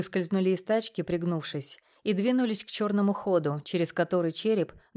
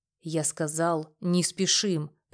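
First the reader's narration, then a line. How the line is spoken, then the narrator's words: Through gritted teeth. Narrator (Russian): процедил я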